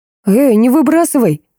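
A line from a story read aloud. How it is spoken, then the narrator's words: Exclaimed. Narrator (Russian): воскликнул Гринёв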